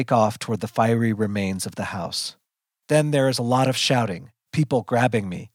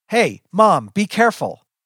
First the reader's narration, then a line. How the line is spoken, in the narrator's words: He yells